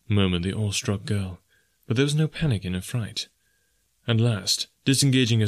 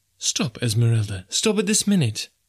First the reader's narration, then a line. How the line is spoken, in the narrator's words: she cried